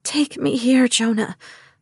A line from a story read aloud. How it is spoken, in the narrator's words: I begged